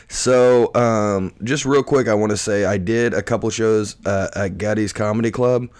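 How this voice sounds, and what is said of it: Hoarse voice cutting in and out. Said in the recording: “my voice was starting to go out then ... now it's kind of going in and out”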